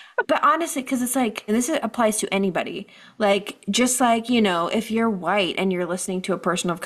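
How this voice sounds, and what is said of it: Usual voice. Nothing is said of it.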